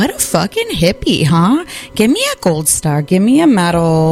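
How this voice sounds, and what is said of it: Usual voice. Nothing is said of it.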